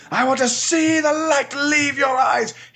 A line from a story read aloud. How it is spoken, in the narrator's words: He shouted at times